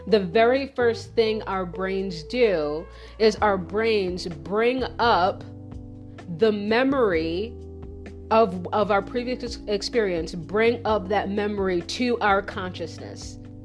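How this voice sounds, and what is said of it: Loud, passionate, near-shouting speech. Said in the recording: “I feel like I'm shouting. Am I shouting, guys? ... I'm like really passionate about this. I'm gonna lower my voice.”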